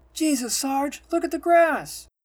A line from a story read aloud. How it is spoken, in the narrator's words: exclaims the private as he stares bewilderedly